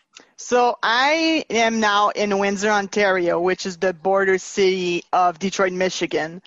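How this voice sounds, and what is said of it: Canadian accent. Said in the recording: “now we have ... with the Canadian accent.”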